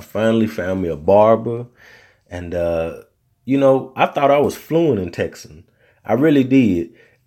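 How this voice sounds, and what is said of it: Southern US accent. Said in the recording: “me being from the South and my accent”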